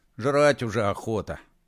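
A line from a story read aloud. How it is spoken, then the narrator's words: Grumbling mutter. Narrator (Russian): пробурчал Колдей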